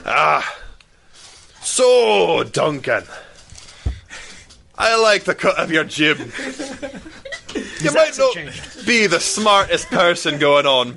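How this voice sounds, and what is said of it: Gruff, strong Scottish accent. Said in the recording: “It got a little gruffer and a little stronger. ... It got way more Scottish.”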